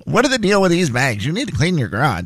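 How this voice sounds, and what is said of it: Impression of his mother. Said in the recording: “your impression of your mother is spot on. It's actually getting better as you get older.”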